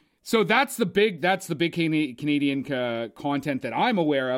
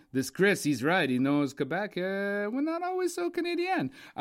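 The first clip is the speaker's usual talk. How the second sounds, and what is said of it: Mock French-Canadian accent. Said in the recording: “Why do you have an Italian accent? ... That was like my French-Canadian accent. It's my reggae leprechaun.”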